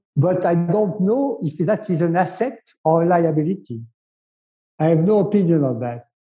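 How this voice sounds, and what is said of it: French accent. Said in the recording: “French negotiator apart from your accent”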